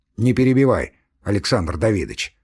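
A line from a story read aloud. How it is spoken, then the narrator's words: Cold. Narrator (Russian): холодно сказал фон Корен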